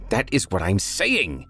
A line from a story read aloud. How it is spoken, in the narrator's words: Toby shrieked